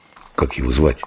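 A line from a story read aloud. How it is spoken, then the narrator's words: Quiet question. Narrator (Russian): Дымов спросил тихо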